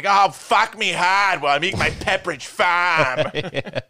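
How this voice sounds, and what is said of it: Put-on harsh Boston accent. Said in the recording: “women with Boston accents ... It's a little too harsh for me”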